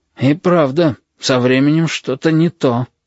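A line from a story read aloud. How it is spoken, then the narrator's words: Breathed out. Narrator (Russian): выдохнул рядом с Галькой Хансен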